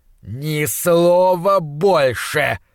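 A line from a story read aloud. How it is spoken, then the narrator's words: Growled. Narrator (Russian): зарычал Уортроп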